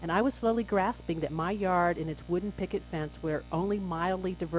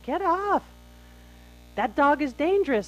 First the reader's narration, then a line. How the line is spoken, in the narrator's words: I heard one woman yell